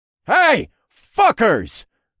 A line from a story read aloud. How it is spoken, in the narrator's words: I yelled